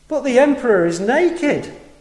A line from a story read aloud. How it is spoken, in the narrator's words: a little child cried out